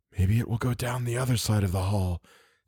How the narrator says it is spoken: Theodora whispered

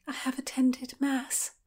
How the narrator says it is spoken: Constance murmured

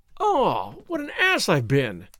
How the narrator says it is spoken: I exclaimed

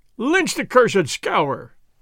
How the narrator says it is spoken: they cried

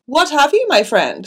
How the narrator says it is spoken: He cried

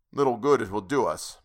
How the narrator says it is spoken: muttered Yar Ali

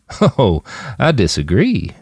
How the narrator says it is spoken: Jim chuckled

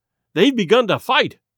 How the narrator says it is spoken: I cried

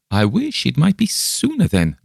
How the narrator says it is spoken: laughed my companion

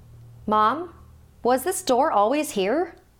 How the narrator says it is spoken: Melinda shouted down the stairs to her mom

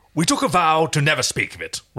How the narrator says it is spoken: Rigel stated pompously

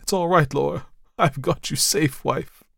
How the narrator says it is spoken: cried

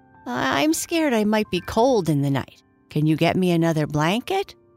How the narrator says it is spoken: Jackie asked

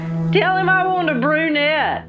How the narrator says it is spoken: a man hollered from the background

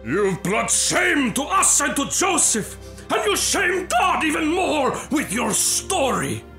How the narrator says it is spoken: her father yelled

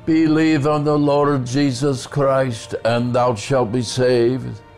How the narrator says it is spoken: Reverend Harper shouted

